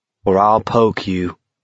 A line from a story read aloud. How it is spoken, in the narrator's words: Baker said evenly